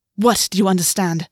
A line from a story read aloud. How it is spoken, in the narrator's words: August spat